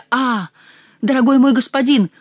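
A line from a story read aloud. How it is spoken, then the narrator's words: Familiar voice exclaiming. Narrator (Russian): воскликнул очень знакомый голос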